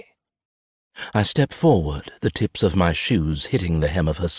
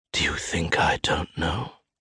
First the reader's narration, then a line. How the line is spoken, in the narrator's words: I hiss